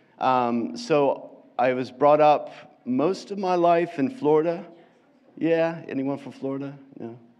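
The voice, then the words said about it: American accent, slightly English-tinged. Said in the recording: “as you can probably guess from my accent, hopefully I'm not taking on too much an English accent ... you could probably still tell that I'm American”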